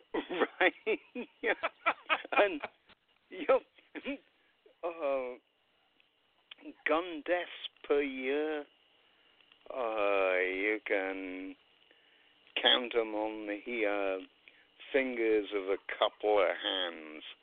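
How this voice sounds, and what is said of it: English accent. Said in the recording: “I come from England, as you've probably guessed by my accent.”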